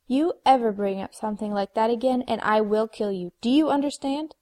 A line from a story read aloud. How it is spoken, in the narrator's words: Buffy snarled at him